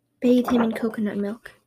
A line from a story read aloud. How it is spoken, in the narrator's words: a voice from the tree spirit whispering in her heart